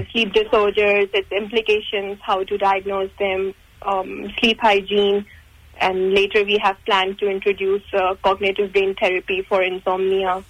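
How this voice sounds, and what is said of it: Noticeable foreign accent. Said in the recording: “you've got an accent there”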